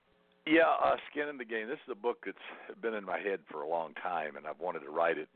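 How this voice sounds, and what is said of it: Fantastic radio voice. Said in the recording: “We just love your voice. ... You have a fantastic radio voice.”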